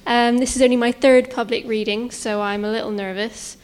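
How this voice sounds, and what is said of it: Local regional accent. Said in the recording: “I'm a local writer, as you can probably tell from my accent.”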